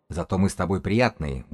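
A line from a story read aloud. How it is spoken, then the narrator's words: Gruff grumble. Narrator (Russian): буркнул он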